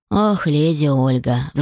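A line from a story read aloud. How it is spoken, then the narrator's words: Sighed. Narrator (Russian): вздохнул кобальт тиранский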